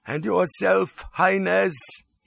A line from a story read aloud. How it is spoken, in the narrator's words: quavered